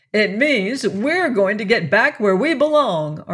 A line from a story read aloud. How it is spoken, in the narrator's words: Arthur cried jubilantly